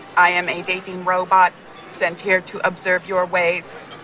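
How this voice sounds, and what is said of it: Robot voice. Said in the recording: “You just pulled a robot voice.”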